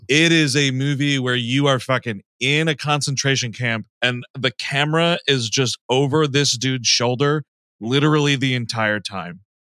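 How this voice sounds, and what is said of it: Speaks with a noticeable accent. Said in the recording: “my accent is making this difficult”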